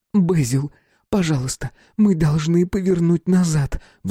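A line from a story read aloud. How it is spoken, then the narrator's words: Pleading. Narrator (Russian): взмолилась Эмми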